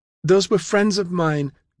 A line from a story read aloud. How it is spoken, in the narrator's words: Deidre cried